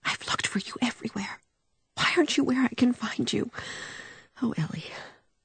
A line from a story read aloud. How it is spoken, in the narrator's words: she whispered